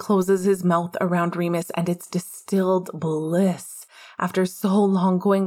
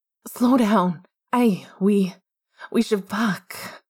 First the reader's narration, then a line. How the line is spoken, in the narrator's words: Remus manages to rasp, his body beginning to tremble